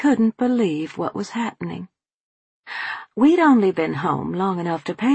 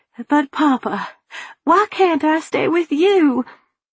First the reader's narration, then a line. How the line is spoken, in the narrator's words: sniffling into my sleeve like a little child, I pleaded